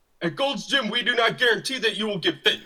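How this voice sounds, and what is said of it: Barking drill-sergeant voice. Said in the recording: “Why do you sound like a drill sergeant? ... why don't you talk to me like a real person here?”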